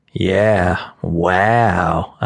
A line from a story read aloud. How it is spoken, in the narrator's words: said sarcastically